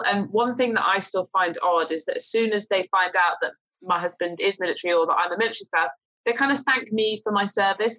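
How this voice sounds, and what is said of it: British accent. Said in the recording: “as soon as you start speaking with a British accent”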